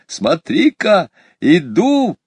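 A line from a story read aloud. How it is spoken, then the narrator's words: Joyful shout. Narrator (Russian): Петя радостно крикнул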